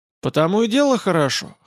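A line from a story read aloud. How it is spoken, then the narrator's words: Snort. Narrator (Russian): хмыкнул Владимир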